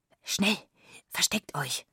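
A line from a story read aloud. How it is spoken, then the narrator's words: Whispered. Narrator (German): flüsterte sie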